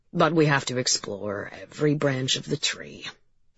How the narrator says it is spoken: he muttered

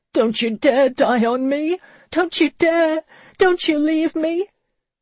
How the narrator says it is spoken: with a sob and a wail she began to beg

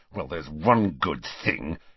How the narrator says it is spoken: he said savagely

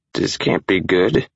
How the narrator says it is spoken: she slurred

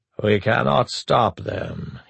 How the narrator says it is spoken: he said, wondering how he could speak so flatly while his soul died

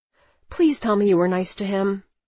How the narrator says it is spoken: I replied nervously

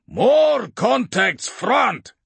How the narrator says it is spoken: Sergeant Tarn shouted from Hanlon's left

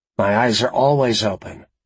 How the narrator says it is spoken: Virgil said

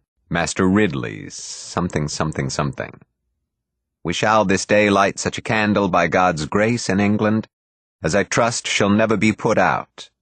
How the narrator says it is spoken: said Beatty

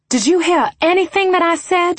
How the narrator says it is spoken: She snapped

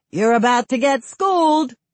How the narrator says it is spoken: Someone off camera shouts

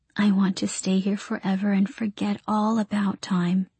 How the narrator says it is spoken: Ah Mama said in a small voice

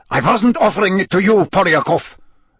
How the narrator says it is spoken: snapped Karkaroff, his warmly paternal air vanishing in an instant

